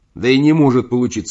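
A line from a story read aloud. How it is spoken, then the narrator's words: Plain. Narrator (Russian): сказал я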